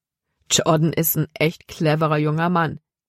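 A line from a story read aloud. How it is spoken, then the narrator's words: Plain. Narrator (German): sagte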